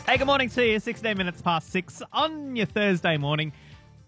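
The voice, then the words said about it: Voice slightly off, unwell-sounding. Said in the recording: “Planned trip with some flu and a gastro chaser ... my voice is a little bit off, so I apologise for that. Hopefully it's still quite listenable.”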